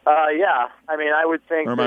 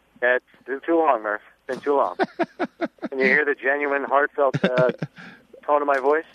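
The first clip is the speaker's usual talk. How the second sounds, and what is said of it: Deadpan flat delivery. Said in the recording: “You put the dead in deadpan”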